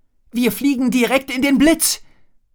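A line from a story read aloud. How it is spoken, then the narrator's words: Calling out. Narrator (German): rief Drake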